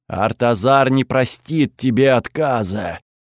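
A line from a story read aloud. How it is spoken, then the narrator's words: Loud booming voice. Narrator (Russian): прогудел голос опоры на всю округу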